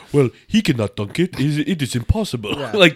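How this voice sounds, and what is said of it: Put-on Serbian accent. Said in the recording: “that's not a good Serbian accent ... It's pretty good, actually.”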